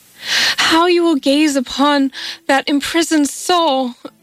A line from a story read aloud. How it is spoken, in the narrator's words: cried she, with a passionate intensity